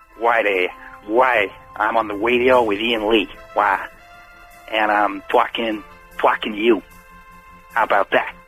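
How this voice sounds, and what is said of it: Decent put-on American accent. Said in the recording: “Can you do an American accent ... It's not bad. It's not bad, mate. It's better than my one.”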